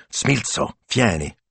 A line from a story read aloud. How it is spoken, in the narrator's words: hissed